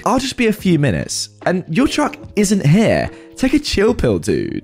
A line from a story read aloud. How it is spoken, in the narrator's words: scoffs at me and rudely states back